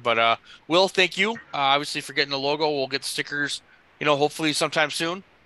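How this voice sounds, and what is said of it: Hoarse, strained voice. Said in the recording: “I'm losing my voice again”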